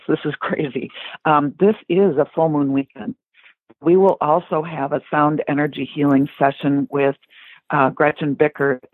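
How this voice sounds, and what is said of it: Hoarse, fading voice. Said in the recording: “I'm starting to lose my voice.”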